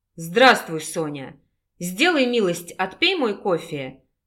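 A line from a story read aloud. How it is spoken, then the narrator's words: Rough. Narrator (Russian): грубо произнес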